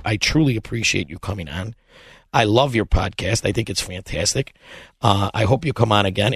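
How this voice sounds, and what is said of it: Raspy voice. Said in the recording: “In the raspy voice. I promise it's better than this.”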